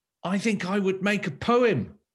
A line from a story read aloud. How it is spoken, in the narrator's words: cried Finn